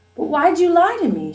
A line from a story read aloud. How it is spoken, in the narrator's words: she cried